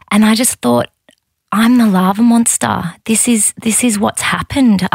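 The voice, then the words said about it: Emotional, choked-up voice. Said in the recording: “I'm getting emotional saying this now”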